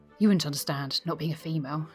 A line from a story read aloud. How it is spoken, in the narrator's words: she replied, sighing